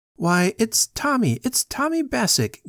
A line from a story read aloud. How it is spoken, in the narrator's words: gasped